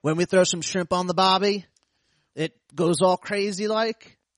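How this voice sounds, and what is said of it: Put-on Australian accent. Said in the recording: “Read it in an Australian accent”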